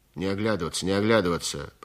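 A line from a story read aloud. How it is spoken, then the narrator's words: Grumbling guard. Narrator (Russian): проворчал задний конвойный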